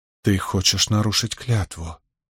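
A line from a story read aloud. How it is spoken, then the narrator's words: Shocked whisper. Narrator (Russian): потрясенно прошептала Мин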